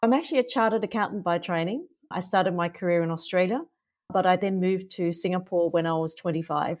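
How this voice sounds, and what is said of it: Australian accent. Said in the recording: “I'm Australian, so you can probably hear that from my accent.”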